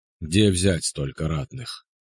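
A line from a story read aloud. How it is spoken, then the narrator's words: Quiet sepulchral question. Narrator (Russian): Тихим замогильным голосом спросил Калаврат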